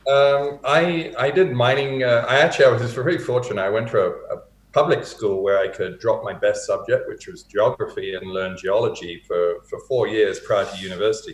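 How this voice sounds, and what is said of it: British accent with North American lilt. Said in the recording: “it's a little bastardized, my accent now ... born and raised in the UK ... it's got more of a North American lilt now than my Hertfordshire accent”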